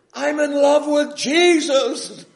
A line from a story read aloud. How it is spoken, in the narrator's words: he shouts back at me